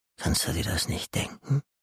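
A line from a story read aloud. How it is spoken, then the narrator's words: Hissing voice from darkness. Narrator (German): hörte er eine zischende Stimme aus der Dunkelheit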